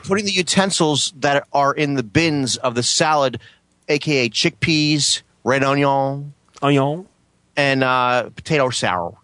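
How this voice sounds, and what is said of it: Put-on accent that keeps changing. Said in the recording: “Can you stick with one accent?”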